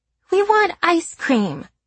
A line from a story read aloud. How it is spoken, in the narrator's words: Claire whines, beginning a chant